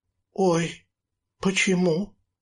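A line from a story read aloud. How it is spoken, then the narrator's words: Frightened cry. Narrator (Russian): испуганно вскрикнула она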